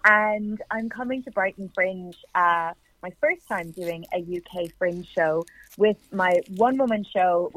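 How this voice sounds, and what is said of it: Irish accent. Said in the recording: “I'm a writer and performer from Ireland, in case you can't hear the accent.”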